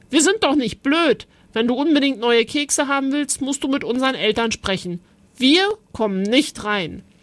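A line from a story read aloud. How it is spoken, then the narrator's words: Called out. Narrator (German): Greta rief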